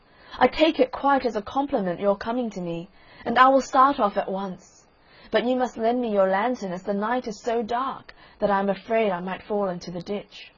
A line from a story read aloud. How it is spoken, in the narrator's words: cried little Hans